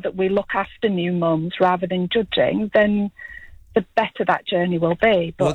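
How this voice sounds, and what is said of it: Musical West Yorkshire English accent. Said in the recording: “you've got a lovely accent ... I'm from West Yorkshire. ... Great accent ... Very musical accent.”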